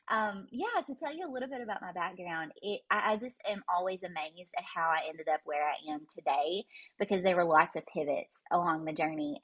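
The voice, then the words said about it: Southern Kentucky accent. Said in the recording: “my accent. It comes honest. I sound like cornbread ... I live in Glasgow, Kentucky ... my accent kind of sounds like it”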